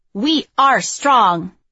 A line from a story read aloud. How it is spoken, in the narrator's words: shout